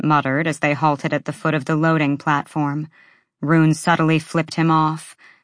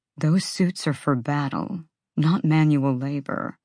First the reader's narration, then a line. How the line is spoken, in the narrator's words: Therian murmured